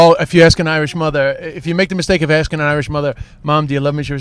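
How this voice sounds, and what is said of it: Usual voice. Nothing is said of it.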